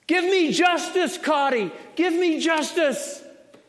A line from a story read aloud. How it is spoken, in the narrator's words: louder than the cacophony, stands a widow, shouting at the top of her voice